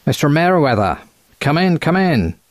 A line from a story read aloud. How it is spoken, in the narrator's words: he said in a quacking American accent